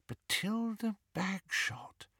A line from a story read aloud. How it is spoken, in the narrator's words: murmured Hermione